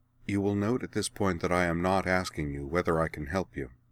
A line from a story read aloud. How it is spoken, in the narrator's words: said coldly to Kaiten